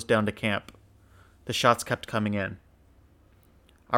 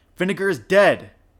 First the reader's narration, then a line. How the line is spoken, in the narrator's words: he shouted